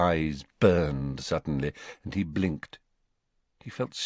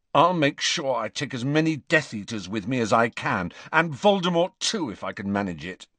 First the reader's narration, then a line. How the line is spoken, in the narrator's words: he said fiercely